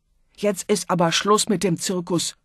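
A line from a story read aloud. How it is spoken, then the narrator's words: Angry roar. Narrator (German): brüllte wütend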